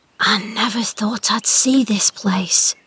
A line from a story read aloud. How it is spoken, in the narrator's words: whispered at last